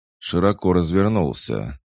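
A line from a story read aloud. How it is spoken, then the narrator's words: Muffled hollow voice. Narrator (Russian): голос Макрушина прозвучал глухо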